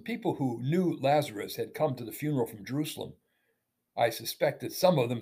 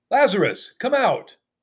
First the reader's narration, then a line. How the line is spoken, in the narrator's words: Jesus called out